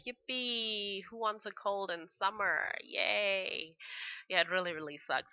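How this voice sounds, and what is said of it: Slightly weird, congested-sounding voice. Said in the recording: “my voice sounds a little bit weird. I've got a cold.”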